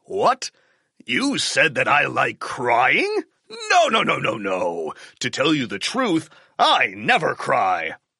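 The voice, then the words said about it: Rough, harsh character voice. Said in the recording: “His voice is so rough and terrible.”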